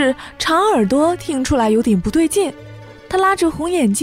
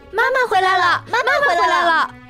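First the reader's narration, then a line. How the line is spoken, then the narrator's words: Children's excited shouting. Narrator (Chinese): 边跳边喊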